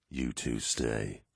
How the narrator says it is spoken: Horus growled

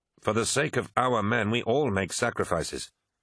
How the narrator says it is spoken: snapped Eidolon

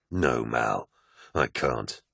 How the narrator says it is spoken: replied Loken sadly

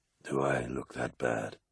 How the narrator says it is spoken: asked Horace, his voice rasping and distant

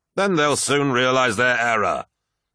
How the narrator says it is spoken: snapped Horus

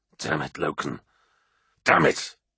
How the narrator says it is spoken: hissed

